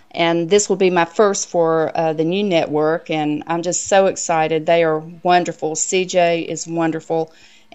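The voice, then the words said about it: Southern US accent, older woman. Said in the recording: “59-year-old Southern woman from Mayberry ... With that accent?”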